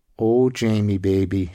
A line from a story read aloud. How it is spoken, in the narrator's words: she sighed, her breath teasing his ear